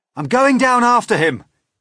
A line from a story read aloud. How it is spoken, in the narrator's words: cried James